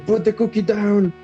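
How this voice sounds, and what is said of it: Shouted Schwarzenegger accent impression. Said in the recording (Spanish): “Schwarzenegger se enoja ... lo grita de tal modo que todos alrededor se, asustan y aparte le vuelve a salir su acento”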